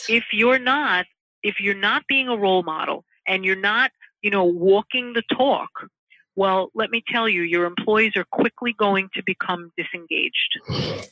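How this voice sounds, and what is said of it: Long Island accent. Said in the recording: “I heard the Long Islander accent come out. I heard it right there.”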